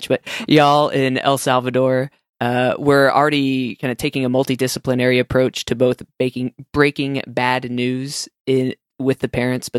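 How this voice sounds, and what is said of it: Texan accent. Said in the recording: “try not to use my Texan accent too much”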